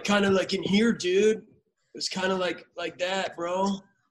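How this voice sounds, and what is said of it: Laid-back surfer dude voice. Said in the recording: “surfer voice”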